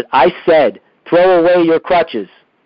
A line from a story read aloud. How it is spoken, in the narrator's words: This time, Padre Pio stopped and shouted